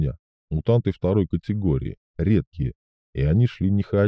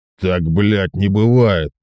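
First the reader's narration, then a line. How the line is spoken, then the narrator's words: Roar. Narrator (Russian): проревел Громов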